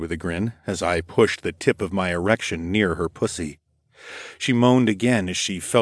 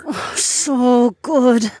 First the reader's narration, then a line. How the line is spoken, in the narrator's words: she purred